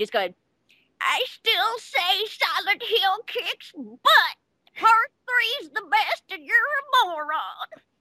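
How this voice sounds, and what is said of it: Imitates another person's voice. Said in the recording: “That is the best imitation of my cousin ever.”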